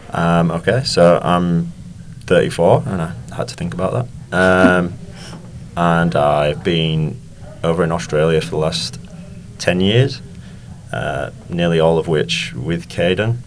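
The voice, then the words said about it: Noticeable accent. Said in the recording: “You'll probably notice a fair accent from”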